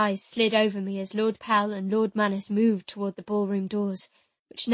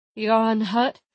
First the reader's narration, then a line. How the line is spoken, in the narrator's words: Arcas slurred